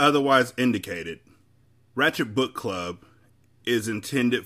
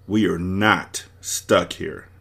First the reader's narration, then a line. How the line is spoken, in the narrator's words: David said firmly